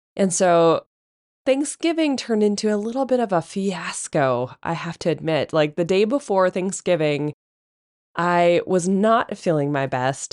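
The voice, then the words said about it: Hoarse, congested voice. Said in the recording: “hopefully you can hear me and I can speak clearly today without my voice cracking or sounding like I've got a frog somewhere stuffed into one of my orifices, because I cannot, breathe properly ... get a cold”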